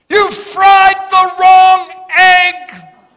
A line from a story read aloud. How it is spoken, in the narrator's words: all of a sudden she heard him screaming